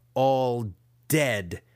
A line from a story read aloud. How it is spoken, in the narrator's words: he snarled one more time